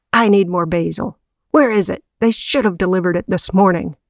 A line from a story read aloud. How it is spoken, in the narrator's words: Stan barked